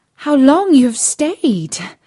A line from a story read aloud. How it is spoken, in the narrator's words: cried she, gaping, rubbing her eyes, and stretching herself as if she had been just waked out of her sleep